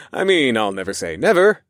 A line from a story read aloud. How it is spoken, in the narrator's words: chuckled